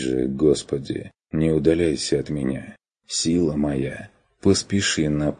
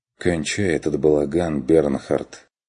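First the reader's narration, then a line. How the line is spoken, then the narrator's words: Exhausted sigh. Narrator (Russian): Вздохнул Курт обессиленно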